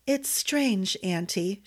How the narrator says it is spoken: she murmured

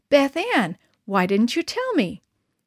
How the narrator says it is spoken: Mom, face aglow, exclaimed with pride

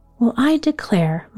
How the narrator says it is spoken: Ma exclaimed

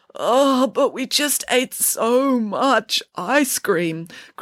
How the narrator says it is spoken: groaned Samantha

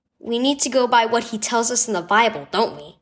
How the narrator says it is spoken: Cohen said

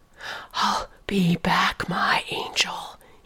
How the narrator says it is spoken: breathed

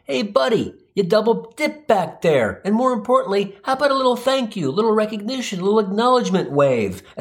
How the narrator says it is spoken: yell

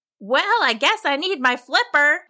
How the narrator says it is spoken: Flapjack Fran called out to the crowd

